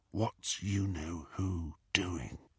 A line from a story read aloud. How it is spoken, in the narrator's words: Harry whispered into the darkness